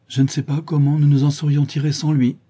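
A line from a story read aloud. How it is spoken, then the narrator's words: Old woman's moaning retort. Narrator (French): répliqua la vieille femme en gémissant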